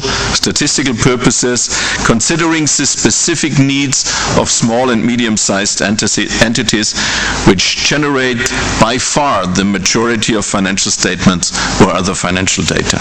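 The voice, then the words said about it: Bavarian German accent. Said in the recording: “my Bavarian accent”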